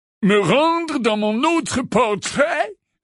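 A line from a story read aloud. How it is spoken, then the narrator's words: Fluty voice, feigned yawn. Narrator (French): répondit Phinéas d'une voix flûtée en faisant semblant de bâiller longuement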